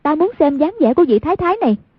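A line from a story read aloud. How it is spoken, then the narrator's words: Exclaimed. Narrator (Vietnamese): Hoàng Dung kêu lên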